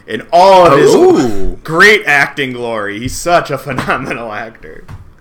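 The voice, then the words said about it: Sarcastic praise. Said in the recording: “Was that sarcasm? I feel like that was sarcasm.”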